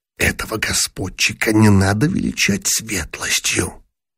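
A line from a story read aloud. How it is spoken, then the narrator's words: Reply, cut off. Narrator (Russian): начал было в ответ златокудрый генерал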